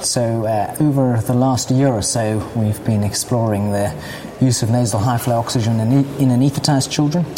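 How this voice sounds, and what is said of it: Scouse with slight South African twinge. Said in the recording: “a little twinge of South African in ... accent... Scouse African.”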